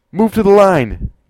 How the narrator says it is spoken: yelled Rontre to correct the mistake that had just happened

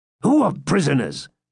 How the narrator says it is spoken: exclaimed Girth impatiently

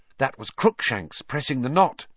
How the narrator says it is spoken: said Hermione

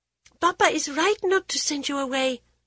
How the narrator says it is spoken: she blurted

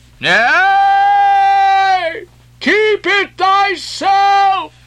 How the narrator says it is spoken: cried Gabriel to Ahab

